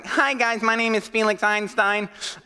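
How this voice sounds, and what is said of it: Nasally, blocked-nose nerdy voice. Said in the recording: “put on this nasally voice ... you have to talk with a blocked nose”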